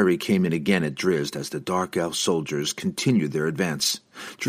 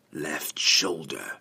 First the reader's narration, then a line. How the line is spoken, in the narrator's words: whispered